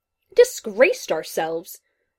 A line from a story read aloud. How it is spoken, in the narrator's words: the man shouted